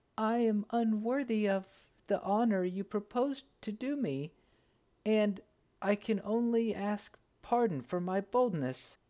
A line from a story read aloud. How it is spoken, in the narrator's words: the youngest faltered out